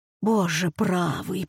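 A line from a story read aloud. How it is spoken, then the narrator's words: Whisper. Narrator (Russian): прошептала экономка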